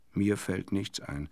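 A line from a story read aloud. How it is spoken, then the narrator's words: Plain. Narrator (German): sagte meine Schwester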